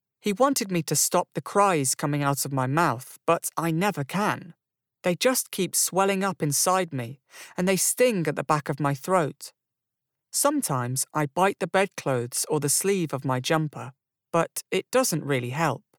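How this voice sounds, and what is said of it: Young-sounding British accent. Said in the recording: “it's British ... a nice British accent ... He sounds so young ... the tone of his voice, but the way his phrasing is really good”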